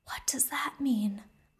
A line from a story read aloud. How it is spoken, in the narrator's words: Evelyn over his shoulder whisper over to Opal